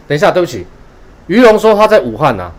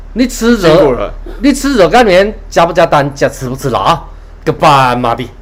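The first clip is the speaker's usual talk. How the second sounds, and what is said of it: Put-on Wuhan dialect. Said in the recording (Chinese): “他说的是武汉话的个斑马的，他们常常都喜欢讲个斑马的。”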